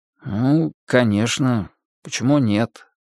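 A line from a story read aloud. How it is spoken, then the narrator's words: Muttering. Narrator (Russian): пробормотал я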